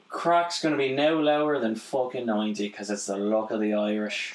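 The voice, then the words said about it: Put-on Irish accent. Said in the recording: “Your accent's good. ... heavy on the Irish”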